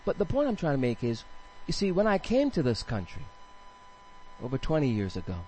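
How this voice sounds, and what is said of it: Island accent, non-American. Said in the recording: “I do have an accent? ... I'm from an island? It's not Staten Island.”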